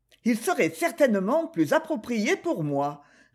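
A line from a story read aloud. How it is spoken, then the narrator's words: Cold reply. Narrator (French): répliqua Lady Molly froidement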